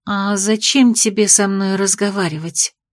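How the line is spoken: Cold question. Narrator (Russian): холодно спросила Влана

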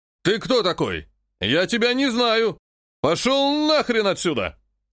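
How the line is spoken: Soldier shouting in face. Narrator (Russian): выкрикнул ему в лицо солдат

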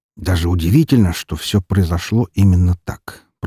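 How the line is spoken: Muttered. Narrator (Russian): пробормотал Роман

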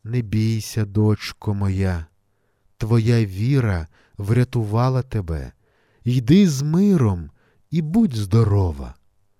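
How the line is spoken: Gentle merciful voice. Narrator (Ukrainian): Милосердний Господь лагідно сказав

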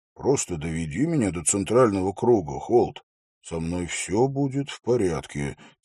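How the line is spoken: Quiet. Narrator (Russian): тихо произнес Хорос

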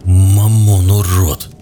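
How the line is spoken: Spoken through gritted teeth. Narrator (Russian): сквозь зубы процедил Грусть

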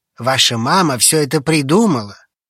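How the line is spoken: Sighing. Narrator (Russian): Алекс вздохнул

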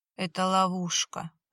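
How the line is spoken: Groan. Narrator (Russian): простонал Виталий

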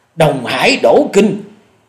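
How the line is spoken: Terrified cry. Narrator (Vietnamese): Hổ Điểu Thần Ma không dằn được khiếp hãi kêu lên

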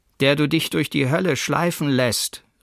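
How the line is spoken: Called out. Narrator (German): rief er

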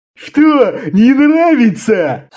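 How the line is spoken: Loud laughter. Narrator (Russian): снова захохотал Хидж

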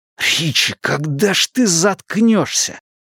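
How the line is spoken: Hissed. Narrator (Russian): прошипел Эдди

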